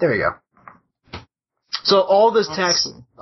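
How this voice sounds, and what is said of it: Usual voice. Nothing is said of it.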